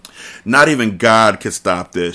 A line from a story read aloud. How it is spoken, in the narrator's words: she said